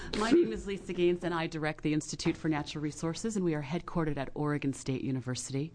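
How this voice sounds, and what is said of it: Rough, sick-sounding voice. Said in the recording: “please forgive my voice. I'm one of the many Oregonians fighting a cold this time of year.”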